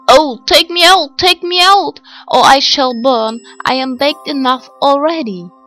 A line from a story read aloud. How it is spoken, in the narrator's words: the bread called out to her